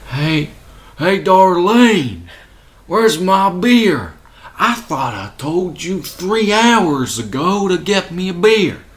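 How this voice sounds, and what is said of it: Cartoony exaggerated Southern US accent. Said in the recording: “similar cartoony type South ... A caricature of the South ... it sounds like people I know ... it's just very cartoony ... It is very cartoony.”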